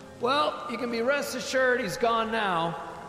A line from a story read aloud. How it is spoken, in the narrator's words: yelled over the rain